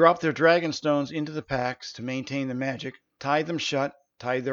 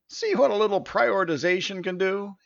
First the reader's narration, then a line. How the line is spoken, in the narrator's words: he laughed with what sounded like a slight whinny